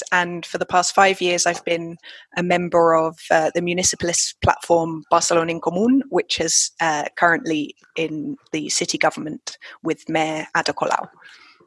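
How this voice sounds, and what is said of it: London English accent. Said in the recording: “I'm originally from London, hence the accent”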